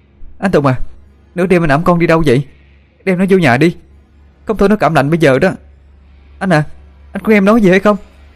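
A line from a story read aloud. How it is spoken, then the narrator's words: Shouting while running. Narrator (Vietnamese): Cô vội chạy đuổi theo phía sau, miệng hét lên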